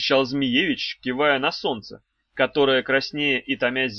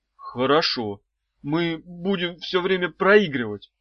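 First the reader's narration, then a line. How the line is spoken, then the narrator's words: Frightened guess. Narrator (Russian): испуганно предположил Евгеша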